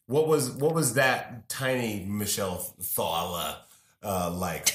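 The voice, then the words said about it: Put-on New York accent. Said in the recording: “That's a good New York accent.”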